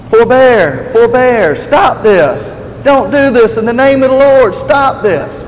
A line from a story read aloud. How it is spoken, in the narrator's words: as he was falling on the ground and dying, he cried out